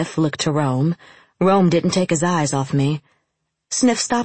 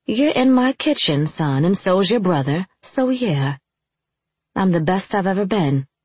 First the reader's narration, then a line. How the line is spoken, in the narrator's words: I replied